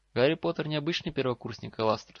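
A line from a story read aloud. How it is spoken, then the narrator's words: Calm reply. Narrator (Russian): спокойно ответил директор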